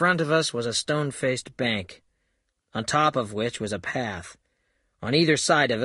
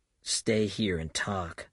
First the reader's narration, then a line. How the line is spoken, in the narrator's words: I whispered to the general